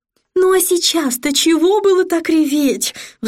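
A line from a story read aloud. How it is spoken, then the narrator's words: Sigh. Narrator (Russian): вздохнула Сатофа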